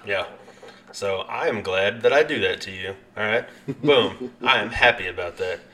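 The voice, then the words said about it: Noticeable regional accent. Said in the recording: “my accent ... I hear it. I know everybody else does too”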